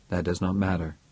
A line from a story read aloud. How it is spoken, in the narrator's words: said Andrew calmly